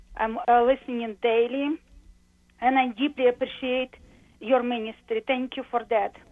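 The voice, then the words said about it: Russian or related accent. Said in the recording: “it sounded like a Russian or related accent”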